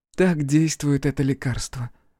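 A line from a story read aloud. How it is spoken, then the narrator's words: Tender. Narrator (Russian): ласково сказала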